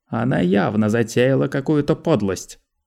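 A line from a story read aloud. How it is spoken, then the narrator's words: Accusing tone. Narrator (Russian): обвиняющим тоном сказал Манео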